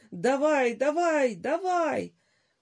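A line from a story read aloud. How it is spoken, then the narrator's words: Desperate high-pitched shout. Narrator (Russian): Володя, блестя отчаянными круглыми глазами, закричал тонким голосом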